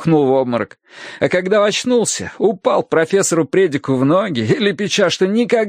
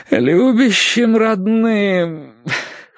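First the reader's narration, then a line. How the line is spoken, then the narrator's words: Moaning. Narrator (Russian): простонал Терренс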